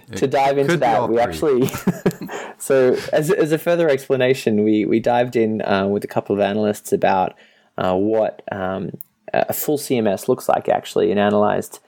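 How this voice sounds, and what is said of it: Regional accent that drops R's. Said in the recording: “No, I don't say R's because where I'm from, we don't ... he has an accent”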